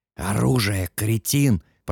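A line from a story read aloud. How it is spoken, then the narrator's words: Pained hiss. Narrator (Russian): прошипел Катберт, и в его голосе явственно слышалась боль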